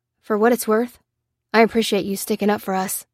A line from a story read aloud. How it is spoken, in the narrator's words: said the soldier